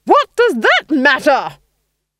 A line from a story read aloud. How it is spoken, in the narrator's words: she roared